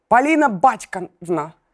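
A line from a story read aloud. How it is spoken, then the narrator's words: Cheerful bass voice. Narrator (Russian): Бодрым басом Полин папа сказал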